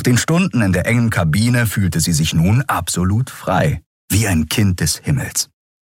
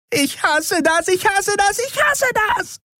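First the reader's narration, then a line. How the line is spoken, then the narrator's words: Screaming with delight. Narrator (German): Auch Andriel schrie, allerdings vor Vergnügen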